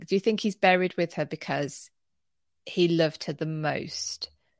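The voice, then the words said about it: Slow, skeptical delivery. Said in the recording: “my voice is slowing down that I'm skeptical”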